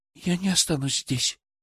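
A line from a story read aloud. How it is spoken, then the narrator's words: Quiet. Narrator (Russian): тихо произнесла Даша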